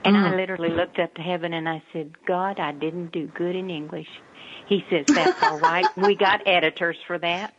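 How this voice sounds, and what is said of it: Southern Texas accent. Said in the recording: “he talks to you in a Texas accent ... it throws me into the southern, you know, to my southern”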